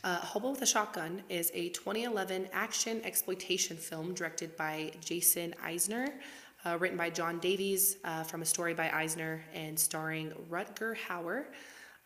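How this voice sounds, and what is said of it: Sick voice, prone to cracking. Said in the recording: “can get through this without my voice cracking... I'm on week two of being sick.”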